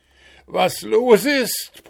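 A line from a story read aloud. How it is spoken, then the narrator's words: Bellowed. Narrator (German): brüllte Puh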